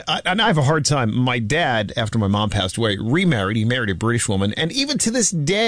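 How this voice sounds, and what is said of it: Usual voice. Nothing is said of it.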